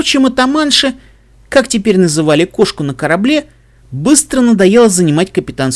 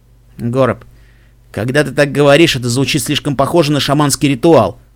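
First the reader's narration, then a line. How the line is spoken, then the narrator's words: Snorting remark. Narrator (Russian): фыркнул Себастьян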